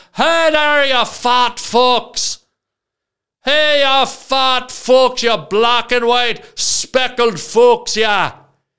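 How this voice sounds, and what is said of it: Put-on Irish accent, yelling. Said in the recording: “I started yelling at them, but to make it worse, I broke into an Irish accent.”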